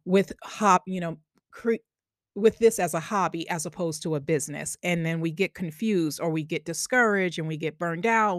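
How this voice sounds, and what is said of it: Long Island accent. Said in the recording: “Oh, there goes that Long Island accent again.”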